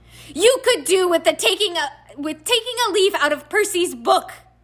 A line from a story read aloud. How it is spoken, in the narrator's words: yelled Mrs